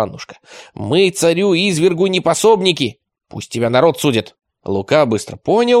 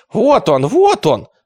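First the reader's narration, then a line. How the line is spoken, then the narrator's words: Joyful group cry. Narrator (Russian): радостно вскричали панычи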